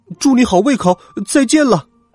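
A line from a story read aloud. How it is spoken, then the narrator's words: Shout. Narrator (Chinese): 喊完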